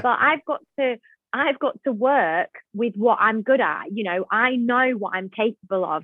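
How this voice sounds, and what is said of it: Northern English accent. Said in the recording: “I tend to be Northern. I very much have the Northern accent”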